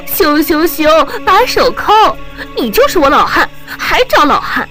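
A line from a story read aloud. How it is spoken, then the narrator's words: Laughing, breathy woman. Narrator (Chinese): 女人哈哈一笑 露着气说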